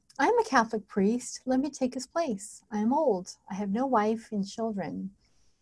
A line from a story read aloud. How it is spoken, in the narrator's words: quietly said